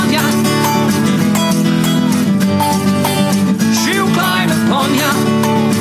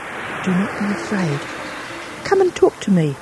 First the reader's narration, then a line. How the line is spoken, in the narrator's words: whispered Karetaki